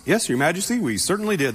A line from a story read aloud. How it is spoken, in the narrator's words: they replied